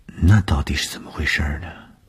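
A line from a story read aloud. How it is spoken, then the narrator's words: Embarrassed murmur. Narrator (Chinese): 东风的脸上飞过红晕，喃喃地说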